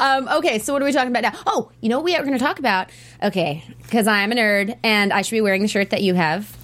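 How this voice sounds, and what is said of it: Usual voice. Nothing is said of it.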